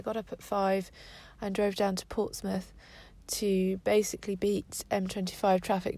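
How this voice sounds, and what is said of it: Tired-sounding voice. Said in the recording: “I'm very tired, which you can probably hear from my voice.”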